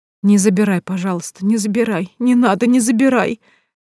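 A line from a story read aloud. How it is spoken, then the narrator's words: Sobbing, coughing plea. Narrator (Russian): Слышалось сквозь всхлипывание и покашливание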